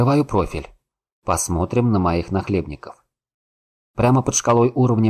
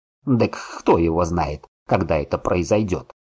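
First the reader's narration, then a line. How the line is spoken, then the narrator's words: Old man snorting. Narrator (Russian): фыркнул дед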